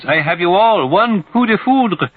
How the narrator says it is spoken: screams

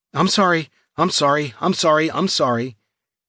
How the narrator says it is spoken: in a desperate and pathetic voice

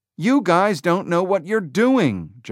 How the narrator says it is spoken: Jobs shouted

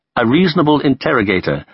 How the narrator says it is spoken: said Khrushchev

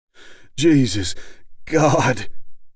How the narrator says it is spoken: Stice panted

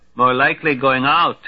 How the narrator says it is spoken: snaps Narish

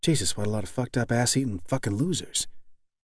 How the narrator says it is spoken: Lentz whispered to himself

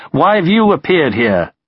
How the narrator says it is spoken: Zhukov himself sped up and shouted at Konev's tank commander

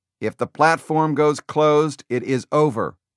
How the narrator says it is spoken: Kong said

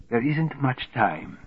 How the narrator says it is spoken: whispered

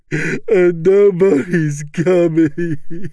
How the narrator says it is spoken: sobs

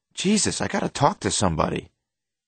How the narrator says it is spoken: he exclaims

